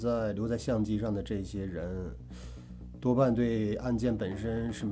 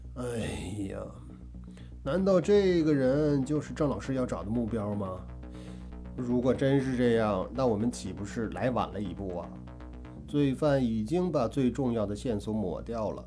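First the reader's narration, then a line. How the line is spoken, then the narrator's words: Annoyed sigh. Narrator (Chinese): 颇有些懊恼地叹道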